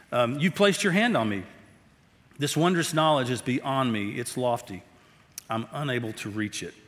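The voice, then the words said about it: Strained, failing voice. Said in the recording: “I'm kind of struggling this morning. My voice is playing out.”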